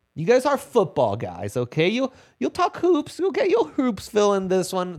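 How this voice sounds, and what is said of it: Weird put-on accent. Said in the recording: “That that was a weird accent that came out there.”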